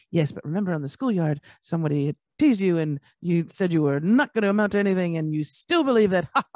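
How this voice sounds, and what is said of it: Character voice of inner mind. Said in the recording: “That was my impression of my subconscious mind.”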